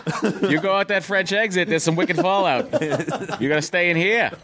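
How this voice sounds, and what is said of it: Put-on Boston accent. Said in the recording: “Boston... Boys get an accent... talk like that... I get drunk? I talk like that.”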